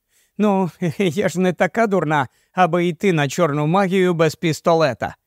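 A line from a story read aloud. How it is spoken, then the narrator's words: Laughing. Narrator (Ukrainian): засміялася Саша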